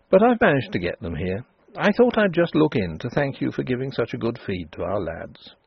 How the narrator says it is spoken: said Denry calmly

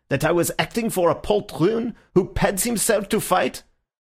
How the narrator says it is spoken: he spluttered

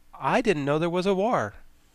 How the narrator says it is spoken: he again exclaimed

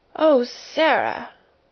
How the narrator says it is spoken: almost whimpered Miss Amelia

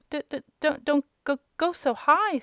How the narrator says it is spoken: stammered the little one tremblingly

